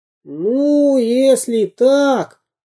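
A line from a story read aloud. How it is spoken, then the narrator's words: Self-important squeak. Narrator (Russian): важно пропищал Карандашкин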